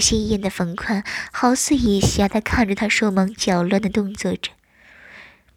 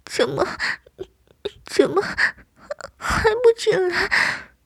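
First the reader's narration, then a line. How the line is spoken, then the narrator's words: Anxious tearful sobbing. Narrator (Chinese): 急哭了眼，呜咽道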